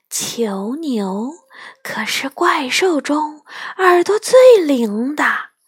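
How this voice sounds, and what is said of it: Very quiet whispered voice. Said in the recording (Chinese): “用极小极小的声音说”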